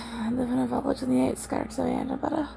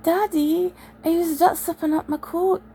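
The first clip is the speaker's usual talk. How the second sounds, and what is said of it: Imitated Edinburgh Scottish child's accent. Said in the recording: “I love the Edinburgh accent ... I just mimic people.”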